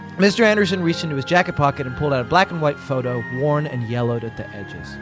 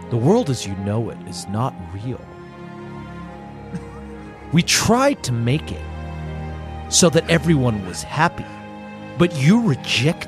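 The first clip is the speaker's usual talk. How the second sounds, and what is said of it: Agent Smith impression. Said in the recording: “Really good Agent Smith impersonation.”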